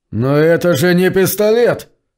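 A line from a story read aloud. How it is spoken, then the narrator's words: Terrified scream. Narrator (Russian): в ужасе завопил он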